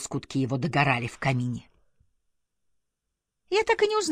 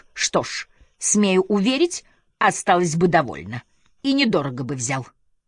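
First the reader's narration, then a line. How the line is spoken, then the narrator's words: Loud declaration amid laughter. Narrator (Russian): старший лакей громко заявлял при общем смехе окружающих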